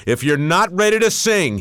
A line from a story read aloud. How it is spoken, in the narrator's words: he bellowed